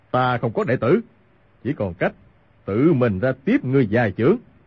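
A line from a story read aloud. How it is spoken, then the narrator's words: Angry shouting. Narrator (Vietnamese): Hoàng Dược Sư càng tức giận quát lên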